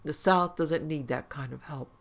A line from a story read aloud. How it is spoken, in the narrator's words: he said flatly